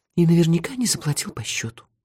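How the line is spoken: Sighing. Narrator (Russian): вздохнула Техи

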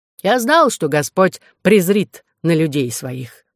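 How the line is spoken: Calm. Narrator (Russian): говорил он спокойно

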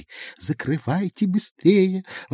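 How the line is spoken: Fairy exclaiming. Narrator (Russian): воскликнула фея

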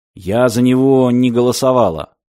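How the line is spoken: Gloomy female voice. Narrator (Russian): мрачно сказала женщина

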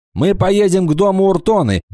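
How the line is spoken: Shouted. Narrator (Russian): прокричал Кикаха

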